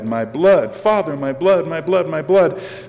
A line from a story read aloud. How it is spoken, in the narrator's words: with a voice of deep pity cried